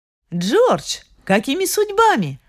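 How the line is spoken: Surprised exclamation. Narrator (Russian): воскликнула Сьюзен

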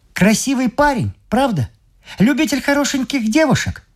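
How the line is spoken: Excited exclamation. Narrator (Russian): в возбуждении воскликнул

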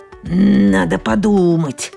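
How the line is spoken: Growling through teeth. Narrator (Russian): рычит сквозь зубы

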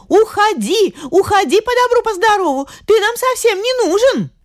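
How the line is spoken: Shouting. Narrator (Russian): она закричала

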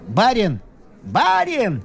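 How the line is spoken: Shout. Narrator (Russian): крикнул

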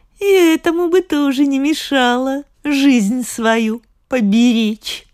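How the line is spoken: Laughing, eldest sister speaking. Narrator (Russian): засмеялись, а старшая и говорит

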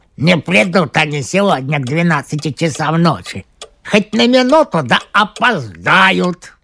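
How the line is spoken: Grumbling. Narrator (Russian): Пантелей Захарович проворчал

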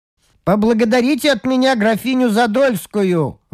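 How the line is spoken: Sudden shout from above. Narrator (Russian): вдруг крикнул он сверху

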